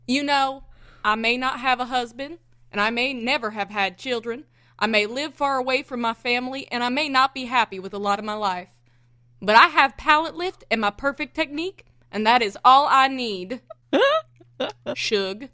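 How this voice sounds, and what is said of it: Put-on strong Southern US accent. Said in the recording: “Picture it with a strong southern accent punctuated by the word shug ... can you reread that quote in a southern accent?”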